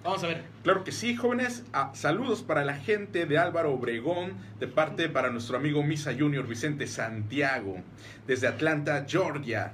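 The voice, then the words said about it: Radio announcer voice. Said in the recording (Spanish): “voz de locutor ... es mi voz de locutor de hoy”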